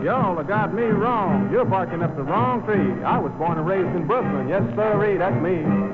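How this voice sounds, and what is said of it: Southern drawl. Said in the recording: “how come you talk with that southern drawl?”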